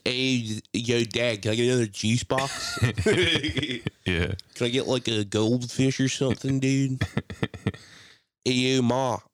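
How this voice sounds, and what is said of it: Exaggerated Delaware County Philly accent. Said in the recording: “the worst Delco accent ever”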